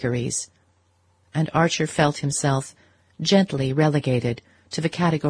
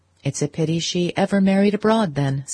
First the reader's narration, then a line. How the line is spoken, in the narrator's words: said May, in the placid tone